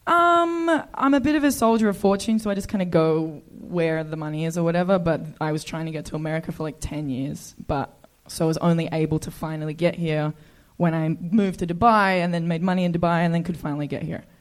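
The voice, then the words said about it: Australian accent. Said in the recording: “Australian.”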